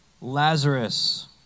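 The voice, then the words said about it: Loud shouted call. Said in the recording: “Jesus called in a loud voice ... it would have sounded like that”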